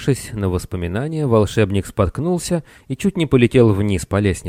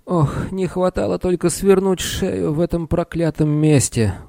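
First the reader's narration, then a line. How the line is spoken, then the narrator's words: Weary sigh. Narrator (Russian): устало вздохнул он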